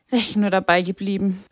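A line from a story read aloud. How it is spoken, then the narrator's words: Sigh. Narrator (German): seufzte sie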